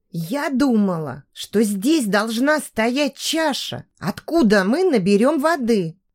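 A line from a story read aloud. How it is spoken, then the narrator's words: Quiet whisper. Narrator (Russian): тихо прошептала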